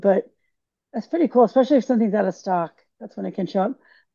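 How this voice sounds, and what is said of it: Hoarse voice. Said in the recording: “my voice got really hoarse there for a second”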